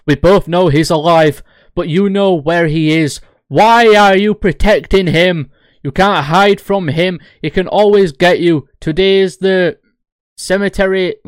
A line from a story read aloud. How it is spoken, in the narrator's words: He asserted frantically